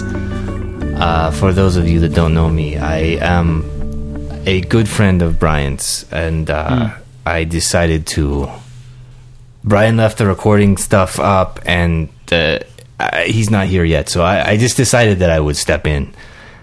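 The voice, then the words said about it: Put-on Eastern European accent. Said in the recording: “I'm trying to place your accent. Is it, you know, Eastern European, like Transylvania kind of?”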